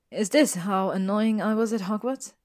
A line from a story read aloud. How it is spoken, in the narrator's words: Hermione sighed